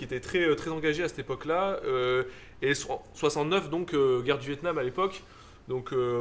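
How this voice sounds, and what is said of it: Usual voice. Nothing is said of it.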